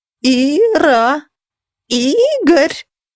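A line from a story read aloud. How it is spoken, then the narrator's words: Shrill old-womanish voice. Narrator (Russian): Визгливо и постарушечье заметила неизвестно еще чья мать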